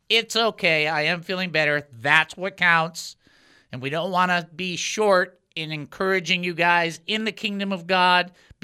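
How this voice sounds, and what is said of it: Slight twinge in voice. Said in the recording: “you will hear it in my voice. A little bit of twinge.”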